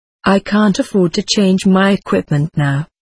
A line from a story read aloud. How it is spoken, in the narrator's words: said Lyman